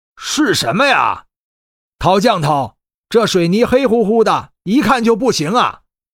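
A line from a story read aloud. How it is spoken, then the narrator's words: Loud. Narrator (Chinese): 陶有茂大声说道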